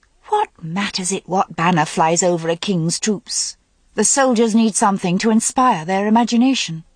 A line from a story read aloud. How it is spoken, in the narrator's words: Morgause said impatiently